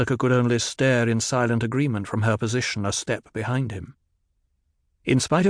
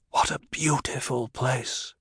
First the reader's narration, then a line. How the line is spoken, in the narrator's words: Paul whispered